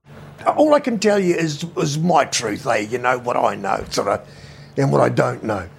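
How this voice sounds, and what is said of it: Fast, classic New Zealand accent. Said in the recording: “He speaks fast with a classic New Zealand accent.”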